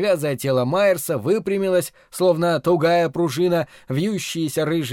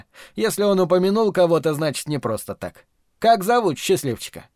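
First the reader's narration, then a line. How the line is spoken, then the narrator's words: Plain. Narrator (Russian): Майерс ответил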